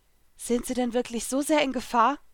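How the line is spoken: Anxious question. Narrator (German): fragte ich ängstlich

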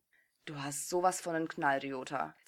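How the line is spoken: Resigned hiss, restrained anger. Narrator (German): zischte Aomine resigniert, während er stolz auf sich war, seine aufsteigende Wut im Zaum halten zu können

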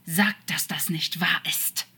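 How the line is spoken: Angry snake hiss. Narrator (German): zischte Crawley als Schlange wütend

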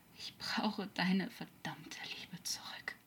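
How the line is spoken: Weak murmur. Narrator (German): murmelte er kraftlos

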